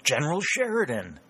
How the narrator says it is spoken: exclaimed Shepard

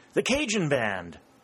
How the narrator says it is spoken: exclaimed Harry

